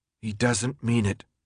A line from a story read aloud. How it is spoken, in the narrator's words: Thomas told himself firmly